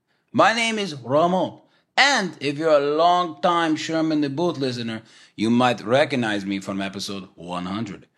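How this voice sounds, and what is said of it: Character voice with mixed accent. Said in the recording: “what is that accent, huh? Is it a little Cubano? Maybe a little Tejas, right? South of the border? We're not sure. Maybe a little Russian here and there.”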